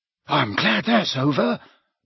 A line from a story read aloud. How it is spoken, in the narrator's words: muttered Neville